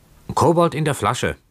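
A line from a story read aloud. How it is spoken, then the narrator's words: Calling out. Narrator (German): rief Keawe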